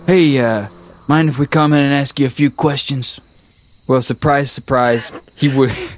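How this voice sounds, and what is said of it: Put-on redneck accent. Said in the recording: “You've gone back to a redneck accent. Subconsciously.”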